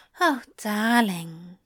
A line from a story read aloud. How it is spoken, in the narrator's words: Zira sighed